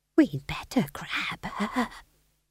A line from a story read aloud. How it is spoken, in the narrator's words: she whispered to McGrath